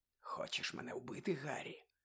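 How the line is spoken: Whispered. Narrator (Ukrainian): прошепотів

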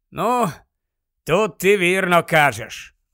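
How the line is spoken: Heavy sigh. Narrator (Ukrainian): важко зітхнув Дерк

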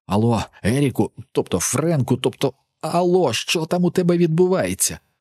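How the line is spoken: Muffled hiss. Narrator (Ukrainian): Прошипів я, прикриваючи вільною рукою рота

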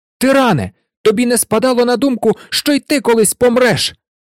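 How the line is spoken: Shout. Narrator (Ukrainian): крикнув він

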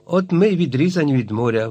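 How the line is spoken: Exclaiming. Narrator (Ukrainian): вигукнув Наб

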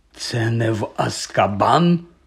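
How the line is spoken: Hoarse question. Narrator (Ukrainian): хрипко запитав Гегрід

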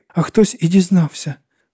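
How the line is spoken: Very thin high voice. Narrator (Ukrainian): продовжила Лора тонесеньким голосом

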